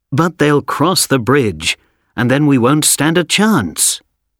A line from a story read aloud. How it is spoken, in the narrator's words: someone said